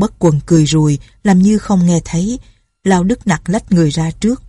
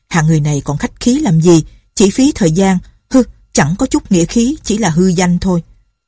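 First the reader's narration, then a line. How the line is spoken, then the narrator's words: Resentful, sulky. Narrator (Vietnamese): Nghi Hòa hậm hực nói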